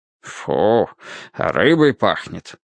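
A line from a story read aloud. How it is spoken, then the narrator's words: Grumbling. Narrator (Russian): проворчал он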